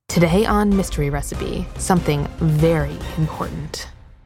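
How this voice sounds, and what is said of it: Serious newscaster voice. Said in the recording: “great serious news voice ... serious podcasting voices”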